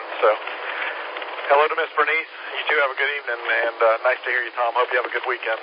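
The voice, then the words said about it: Congested, worn-out, nearly gone voice. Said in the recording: “My voice is wearing out. I've been fighting something... I just had a terrible head cold, I guess. I'm real congested. My voice is just practically gone.”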